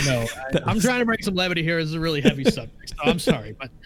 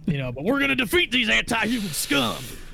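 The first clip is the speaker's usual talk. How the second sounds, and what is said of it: Imitates another person's voice. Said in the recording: “That was too good... frightened me, actually... that was a really good impression... I've been told I do good voices”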